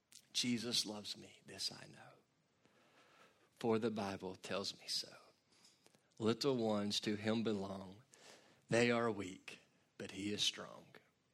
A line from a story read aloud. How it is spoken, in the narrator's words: Lottie softly sing